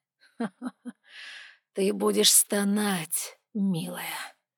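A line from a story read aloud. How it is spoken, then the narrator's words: Menacing whisper. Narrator (Russian): прошептал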